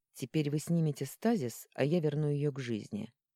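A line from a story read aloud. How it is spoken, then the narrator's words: Plain. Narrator (Russian): ответил Арман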